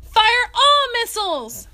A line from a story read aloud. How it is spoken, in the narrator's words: General Casey yelled